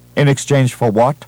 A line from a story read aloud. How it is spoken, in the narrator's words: she asked curtly